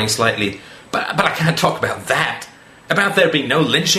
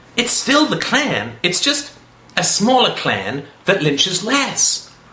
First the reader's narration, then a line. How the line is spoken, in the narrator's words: he said earnestly